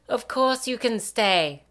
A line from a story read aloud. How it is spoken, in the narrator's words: the woman exclaims